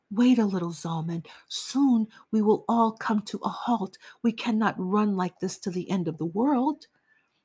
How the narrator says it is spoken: I begged him

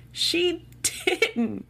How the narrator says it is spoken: Rosa laughed

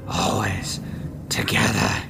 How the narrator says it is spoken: he hissed at her

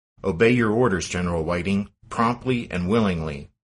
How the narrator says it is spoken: Stonewall barked

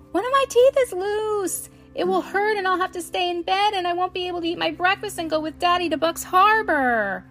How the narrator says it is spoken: she cried

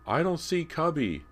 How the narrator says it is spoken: James shouted over the noise

